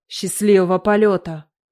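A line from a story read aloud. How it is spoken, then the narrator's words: Snorting. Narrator (Russian): Грегор хмыкнул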